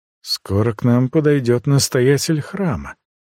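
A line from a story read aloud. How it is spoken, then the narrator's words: Quiet, tense voice. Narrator (Russian): сказал Тиаган негромко, и голос его звучал напряженно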